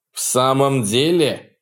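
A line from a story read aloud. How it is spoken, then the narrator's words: Growl. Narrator (Russian): прорычал Картрайт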